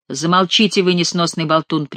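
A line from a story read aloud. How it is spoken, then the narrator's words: King's sharp rebuke. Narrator (Russian): прикрикнул на шута король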